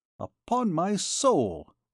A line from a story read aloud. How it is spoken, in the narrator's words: exclaimed Jean